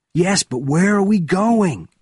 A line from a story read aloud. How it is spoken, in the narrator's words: Benjamin shouted